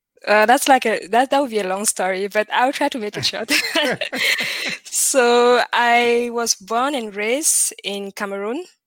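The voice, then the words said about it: French-influenced Cameroonian English accent. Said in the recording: “you might notice that from my accent. There's some French in there.”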